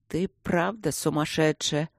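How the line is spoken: Hopeless grumble. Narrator (Russian): безнадежно проворчал внутренний голос

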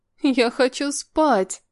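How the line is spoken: Childish whimpering. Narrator (Russian): по-детски захныкала она

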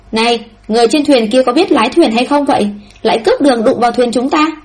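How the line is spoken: Angry raised-voice call. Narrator (Vietnamese): tức giận nói, lúc này dương giọng hô

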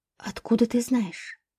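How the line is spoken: Whisper. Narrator (Russian): прошептала

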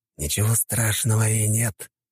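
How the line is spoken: Hiss. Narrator (Russian): прошипел

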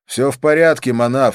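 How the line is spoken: Loud. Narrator (Russian): сказал громко

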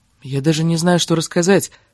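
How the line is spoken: Whisper right in ear. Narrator (Russian): сказал он шепотом в самое ее ухо

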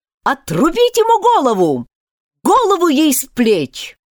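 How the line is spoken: Quarrelsome shouting. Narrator (Russian): королева беспрестанно ссорилась с игроками и кричала

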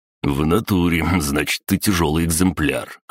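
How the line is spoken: Smirking. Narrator (Russian): хмыкнул

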